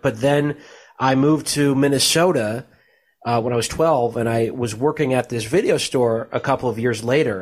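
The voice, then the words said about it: Virginia accent, old-sounding male voice. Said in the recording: “I talk in kind of a, you know, kind of an odd voice for like a young man... You sound like Jimmy Stewart there... I guess this is a Virginia accent. I sound like this bumbling, like, old guy.”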